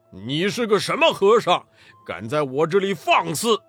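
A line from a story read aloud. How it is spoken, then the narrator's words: Stern loud shout. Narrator (Chinese): 黑风怪厉声高叫道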